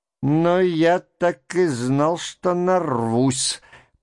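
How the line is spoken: Muttering. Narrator (Russian): пробормотал опять Верховенский

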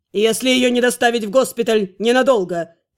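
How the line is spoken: Barking. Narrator (Russian): Рявкнул магистр Фейрл

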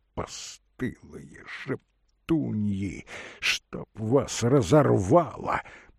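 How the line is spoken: Muttering. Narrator (Russian): бормотал он

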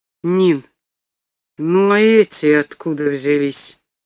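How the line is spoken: Uncertain question. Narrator (Russian): Неуверенно спросил Алик

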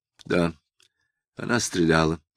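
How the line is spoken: Dry reply. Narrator (Russian): сухо ответил Самгин

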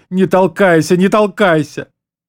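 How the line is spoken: Sobbing shout. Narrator (Russian): тот, всхлипывая, закричал

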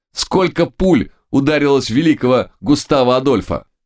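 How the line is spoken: Shouted into ear. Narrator (Russian): Дермоген снова крикнул ему на ухо

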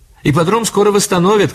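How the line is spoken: Shouting from car. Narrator (Russian): крикнула Элли из машины

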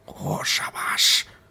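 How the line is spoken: Involuntary mutter. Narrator (Russian): пробормотал Ким, не удержавшись

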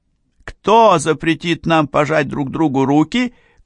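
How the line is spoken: Angry shout. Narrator (Russian): крикнула Фанни

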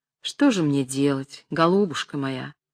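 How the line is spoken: Gentle old man's reply. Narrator (Russian): ласково отвечал старичок

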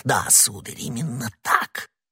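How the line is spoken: Frightened barely audible whisper. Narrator (Russian): чуть слышно в страхе прошептал посетитель

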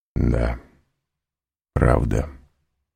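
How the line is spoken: Barely audible. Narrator (Russian): произнес он еле слышно

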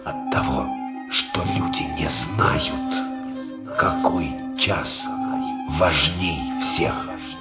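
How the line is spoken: Old oak-man whispering. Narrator (Russian): Старик дубовик прошептал

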